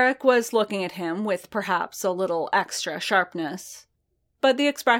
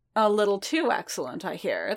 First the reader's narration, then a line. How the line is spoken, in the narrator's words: the Cardassian said